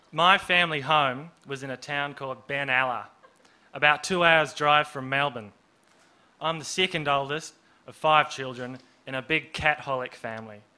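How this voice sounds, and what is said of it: Put-on accent from The Castle. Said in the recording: “I don't normally talk like this, but I have watched The Castle more than enough times to be able to do a pretty good accent.”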